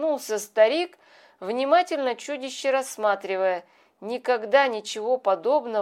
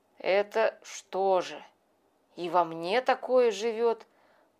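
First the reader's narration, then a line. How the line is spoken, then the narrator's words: Surprised mutter. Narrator (Russian): пробормотал удивленно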